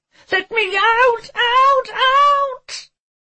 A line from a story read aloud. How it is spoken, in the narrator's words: screeched at the injustice that was his shit of a life